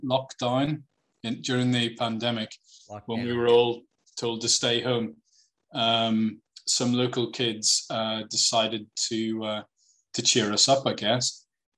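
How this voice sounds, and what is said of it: Speaks with a noticeable accent. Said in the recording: “that's just my accent”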